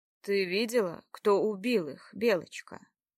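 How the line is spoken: Asked in hollow voice. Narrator (Russian): спросил глухо Богумил

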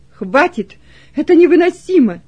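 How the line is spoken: Loud trembling voice. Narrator (Russian): произнес громко Кунерих, дрожащим голосом

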